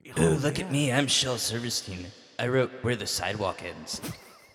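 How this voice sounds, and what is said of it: Imitates another person's voice. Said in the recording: “hear my Shel Silverstein impression”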